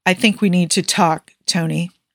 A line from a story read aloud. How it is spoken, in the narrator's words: Steve said, trying to keep his voice even